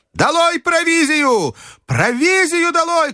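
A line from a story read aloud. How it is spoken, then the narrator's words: Shouted again. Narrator (Russian): крикнул снова доктор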